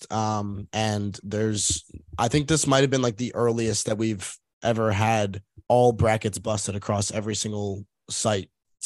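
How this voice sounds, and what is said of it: Strained, worn-out voice. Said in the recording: “My voice is a little bit shot”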